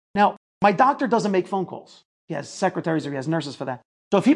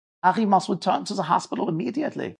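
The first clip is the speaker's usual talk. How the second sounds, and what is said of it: Put-on German accent. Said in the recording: “He had a German accent.”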